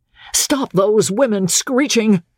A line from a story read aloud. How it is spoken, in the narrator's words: Steve shouted